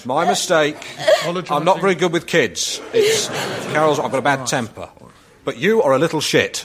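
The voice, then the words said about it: Distinctive comic character tone of voice. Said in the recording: “you can hear Alan's tone of voice ... It's a certain tone of voice”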